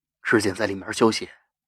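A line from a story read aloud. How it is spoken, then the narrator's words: Soft, faintly smiling. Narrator (Chinese): 淡淡笑笑，轻声说着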